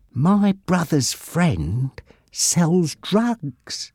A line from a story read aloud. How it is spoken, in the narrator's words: he whispered in Bob's ear